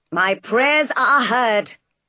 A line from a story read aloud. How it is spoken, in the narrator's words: cried St